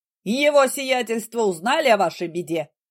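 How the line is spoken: Loud servant. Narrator (Russian): Слуга говорил громко, не считаясь с тем, что люди в доме спят

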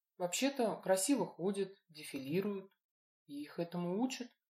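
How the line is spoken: Mumbled. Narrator (Russian): пробормотала она

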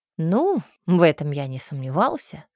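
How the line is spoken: Snort. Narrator (Russian): хмыкнул Кей

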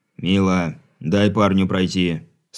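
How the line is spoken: Stern. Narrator (Russian): строго произнес Брыль

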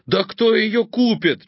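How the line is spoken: Almost shouting. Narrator (Russian): чуть не закричал Олег

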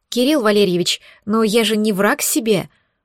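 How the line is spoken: Hoarse wheeze. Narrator (Russian): прохрипела Настя

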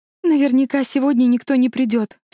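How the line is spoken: Sobbing, very upset. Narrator (Russian): всхлипывала мама, ужасно расстроенная

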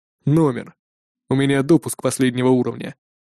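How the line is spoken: Calm answer. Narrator (Russian): спокойно ответил

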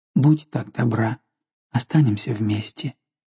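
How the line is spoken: Tender and saddened. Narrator (Russian): он сказал ласково и опечаленно

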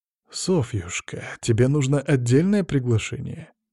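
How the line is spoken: Unctuous question. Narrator (Russian): спрашиваю елейным тоном

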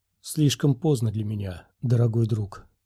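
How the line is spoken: Soft. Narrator (Russian): сказала мягко

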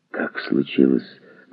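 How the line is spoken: Hoarse question. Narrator (Russian): наконец спросил хрипло

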